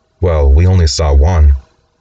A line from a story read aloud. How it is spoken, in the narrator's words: She feebly pushes back with